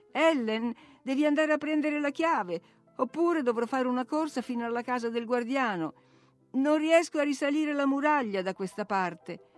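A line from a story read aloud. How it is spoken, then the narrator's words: Laughing exclamation. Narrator (Italian): ridere ed esclamare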